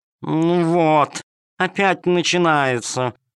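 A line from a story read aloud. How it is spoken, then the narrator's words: Purring. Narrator (Russian): промурлыкала кошка-хромоножка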